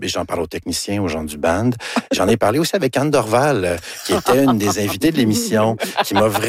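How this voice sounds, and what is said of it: Usual voice. Nothing is said of it.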